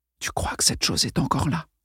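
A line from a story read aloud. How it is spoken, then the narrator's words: Whispered. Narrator (French): chuchota Lawrence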